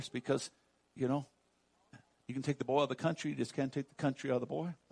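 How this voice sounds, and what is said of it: Slight Southern country accent. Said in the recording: “Y'all hear a little bit of my accent in there.”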